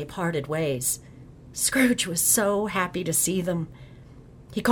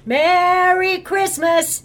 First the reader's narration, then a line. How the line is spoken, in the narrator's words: Several boys on ponies rode by shouting to each other